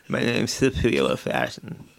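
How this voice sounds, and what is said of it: Lisping vocal-fry impression. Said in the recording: “a lisp, dry mouth, vocal fry ... an impression of her with a lisp, vocal fry, and the dry mouth ... He sounds like Porky Pig.”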